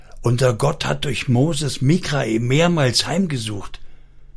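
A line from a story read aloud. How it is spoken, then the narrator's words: Whispered. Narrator (German): Er flüsterte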